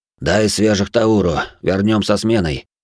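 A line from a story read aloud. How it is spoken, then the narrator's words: Hoarse. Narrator (Russian): хрипло сказал Айс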